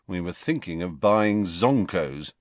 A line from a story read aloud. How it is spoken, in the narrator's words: said Fred gloomily